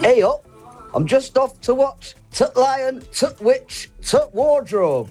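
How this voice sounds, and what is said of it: Impression of a Yorkshire accent. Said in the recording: “our Yorkshire accents ... he's done an impression of us”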